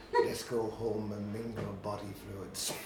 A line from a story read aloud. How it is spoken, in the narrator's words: murmured in his hair tufted ear